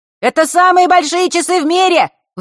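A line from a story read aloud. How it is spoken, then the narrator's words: Deafening shout from boy. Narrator (Russian): выкрикнул какой-то паренек не старше самой Василисы, чуть не оглушив ее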